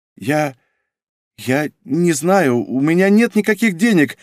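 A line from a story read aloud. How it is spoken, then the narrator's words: Babbling. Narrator (Russian): лепетала Сабина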